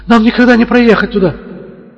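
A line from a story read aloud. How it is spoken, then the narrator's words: Alarmed cry. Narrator (Russian): она вскрикнула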